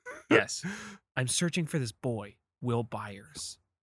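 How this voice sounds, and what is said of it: Imitates another person's voice. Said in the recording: “that your impression of a Leah Shawkat”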